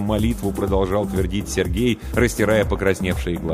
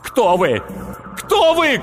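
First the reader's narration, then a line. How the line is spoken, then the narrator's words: Shouting. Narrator (Russian): кричал Сергей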